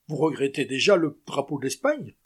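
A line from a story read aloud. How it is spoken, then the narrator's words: Mocking exclamation. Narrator (French): s'écria le lieutenant d'un ton railleur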